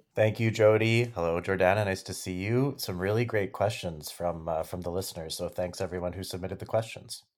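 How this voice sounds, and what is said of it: Smooth radio broadcaster voice. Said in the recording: “His smooth radio voice ... You do have a radio voice.”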